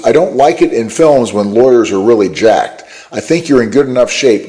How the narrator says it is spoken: Goldstein says

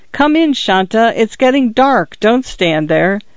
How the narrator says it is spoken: Her mother shouted from inside

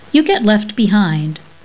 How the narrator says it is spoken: Mummy said sharply

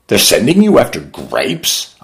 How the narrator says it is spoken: cried

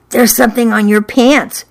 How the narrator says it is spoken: she whispered

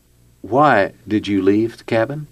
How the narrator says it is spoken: Jeff calmly asked her

